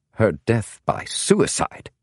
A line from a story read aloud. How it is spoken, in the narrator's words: James said in a sharper tone than he might have intended